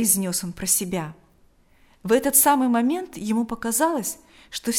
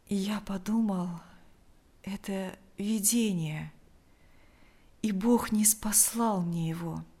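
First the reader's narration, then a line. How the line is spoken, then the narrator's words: Weak voice. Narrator (Russian): ответил Лукьян слабым голосом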